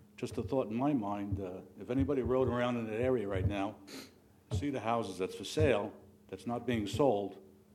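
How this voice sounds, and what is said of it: Non-local accent. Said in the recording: “you'll probably tell by my accent that I haven't lived here too long”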